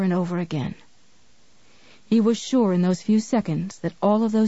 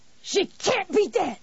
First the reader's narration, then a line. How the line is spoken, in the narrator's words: Annie Wilkes shrieked at him